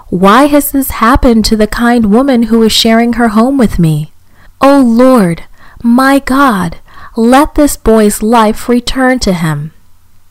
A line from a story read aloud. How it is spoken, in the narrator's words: Elijah cried to the Lord